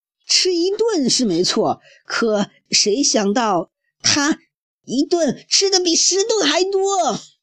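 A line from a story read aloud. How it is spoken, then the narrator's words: Bear's loud exclamation. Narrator (Chinese): 胖棕熊叫起来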